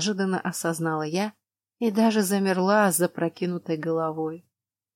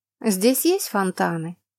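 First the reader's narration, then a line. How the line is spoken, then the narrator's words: Carefree question. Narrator (Russian): Самым беззаботным тоном поинтересовалась я у Пифаль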